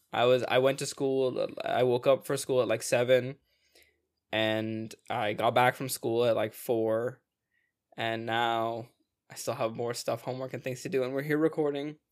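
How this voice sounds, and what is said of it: Tired, worn-out voice. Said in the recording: “I don't know if you can tell by my voice, but like... Ibrahim noticed immediately, like, I am tuckered out.”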